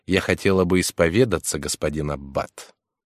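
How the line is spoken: Embarrassed mumble. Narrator (Russian): она, вся вспыхнув, пробормотала

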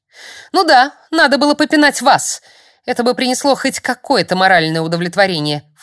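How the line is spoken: Snorted. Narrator (Russian): фыркнула я

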